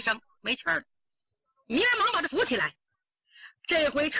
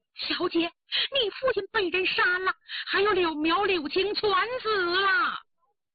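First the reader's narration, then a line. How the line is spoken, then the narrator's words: Low, gloomy weeping. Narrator (Chinese): 明儿 低低阴声哭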